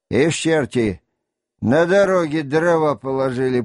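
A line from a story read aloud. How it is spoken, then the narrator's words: Grumbling. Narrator (Russian): проворчал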